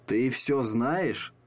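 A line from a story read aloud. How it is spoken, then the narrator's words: Puzzled mumble. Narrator (Russian): пробормотал он озадаченно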